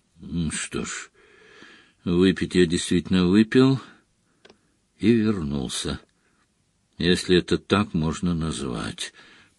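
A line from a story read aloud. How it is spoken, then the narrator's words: Mutter. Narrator (Russian): пробормотал Дамблдор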